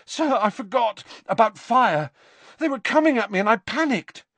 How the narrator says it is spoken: panted Harry

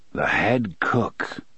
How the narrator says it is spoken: his father said softly

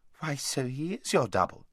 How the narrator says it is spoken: exclaimed Queen Lucy

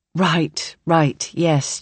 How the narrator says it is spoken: Jen says

